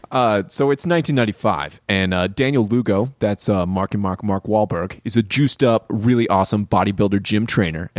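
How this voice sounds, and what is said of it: Congested, stuffy-nosed voice. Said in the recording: “I'm pretty congested.”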